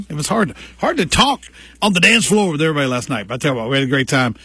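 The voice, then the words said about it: Voice nearly gone, strained. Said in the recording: “I'm about losing my voice”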